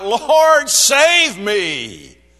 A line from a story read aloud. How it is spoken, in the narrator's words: seeing the wind, he became frightened, and beginning to sink, he cried out